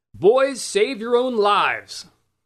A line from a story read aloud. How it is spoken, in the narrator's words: to shout to the defenders within earshot